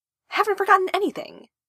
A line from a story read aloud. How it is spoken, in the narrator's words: Tamaki snapped